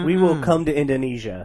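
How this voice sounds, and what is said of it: Nondescript put-on accent. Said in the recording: “I don't know what that accent was. ... It was just nondescript. ... there was no descript to it”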